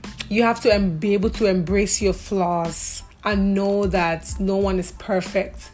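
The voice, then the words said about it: Speaks with a noticeable accent. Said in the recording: “Sorry, my accent.”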